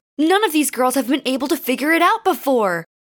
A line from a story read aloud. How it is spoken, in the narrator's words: hollered Hikaru